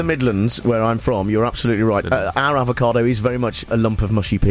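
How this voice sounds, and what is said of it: Usual voice. Nothing is said of it.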